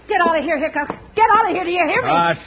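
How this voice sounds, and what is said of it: Yelling. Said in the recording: “Stop yelling”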